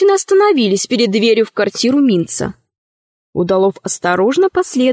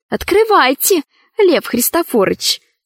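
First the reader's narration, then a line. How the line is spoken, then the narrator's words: Feigned sweetness. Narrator (Russian): сказала Ксения притворно ласковым голосом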